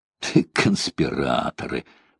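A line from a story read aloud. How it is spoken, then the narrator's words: Muttered. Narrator (Russian): пробормотал я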